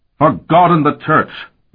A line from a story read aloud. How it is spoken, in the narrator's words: Bavier shouted